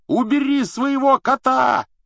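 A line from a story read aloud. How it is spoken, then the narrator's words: Yelling. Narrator (Russian): заорал Рон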